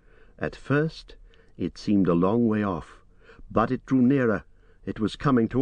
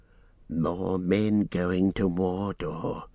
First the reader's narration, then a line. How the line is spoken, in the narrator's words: he said in a low voice